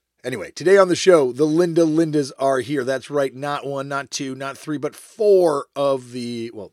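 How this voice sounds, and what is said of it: Tired, worn-out voice. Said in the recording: “I'm very tired. As you can tell from my voice being a little bit shot”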